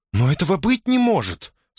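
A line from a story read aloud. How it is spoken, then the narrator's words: Grief-stricken moan. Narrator (Russian): сокрушенно простонала она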